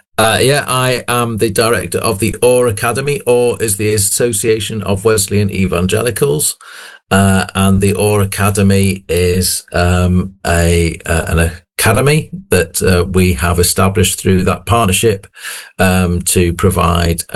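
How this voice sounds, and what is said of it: Slightly hoarse, croaky voice. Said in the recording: “apologies if I am a little hoarse. I was a little hoarse before I went, and that is to say, I was a bit croaky ... I may be a little more hoarse than I was this time yesterday.”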